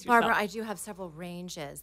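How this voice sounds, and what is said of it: Smooth, polished radio announcer voice. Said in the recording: “the dulcet tones here of ... who's like, could be a voiceover queen ... This is my radio voice.”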